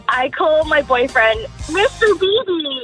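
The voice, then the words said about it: High-pitched cutesy baby voice. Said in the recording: “she got the accent going as well. Like it's a little Care Bear. ... High pitch, baby”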